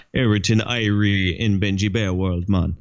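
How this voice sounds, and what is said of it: Put-on Jamaican accent. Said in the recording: “That's my best Jamaican accent.”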